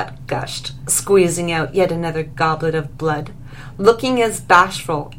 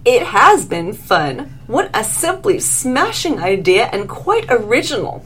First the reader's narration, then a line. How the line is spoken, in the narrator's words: nodded eagerly